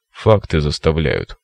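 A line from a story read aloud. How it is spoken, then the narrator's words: Grunted, academic. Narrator (Russian): буркнул академик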